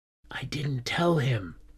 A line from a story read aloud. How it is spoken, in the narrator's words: I whispered to her